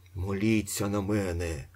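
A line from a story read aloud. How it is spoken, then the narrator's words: Whisper. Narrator (Ukrainian): шепотів Остап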